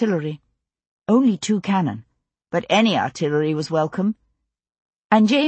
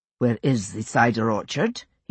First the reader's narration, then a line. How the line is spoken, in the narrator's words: He asked calmly